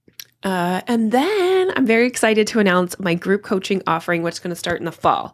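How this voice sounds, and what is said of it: Talking really fast. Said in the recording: “I'm talking really fast, I just noticed, because I was excited.”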